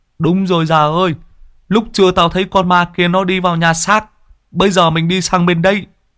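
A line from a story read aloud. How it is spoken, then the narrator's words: Excited exclaiming. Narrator (Vietnamese): Chú ở đây reo lên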